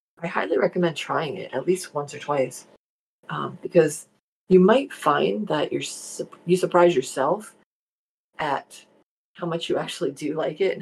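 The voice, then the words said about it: New Jersey accent. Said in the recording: “my Jersey accent is coming through this morning, loud and clear”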